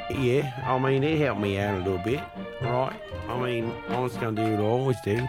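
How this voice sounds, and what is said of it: Australian accent. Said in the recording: “You always talk with the Australian accent.”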